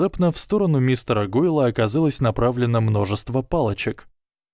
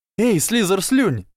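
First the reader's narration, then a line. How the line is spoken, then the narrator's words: Shouting. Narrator (Russian): закричал Эрни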